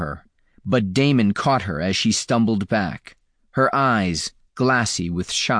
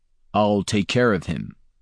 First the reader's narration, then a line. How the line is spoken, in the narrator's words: Damon said firmly